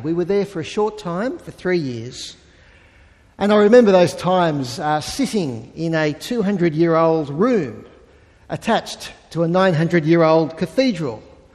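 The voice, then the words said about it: Antipodean (Australian or New Zealand) accent. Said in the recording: “every time I opened my mouth, my accent would give me away ... what's this Antipodean doing in our learned institution?”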